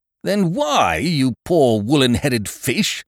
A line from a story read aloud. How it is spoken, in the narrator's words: bellowed Eucridge, exploding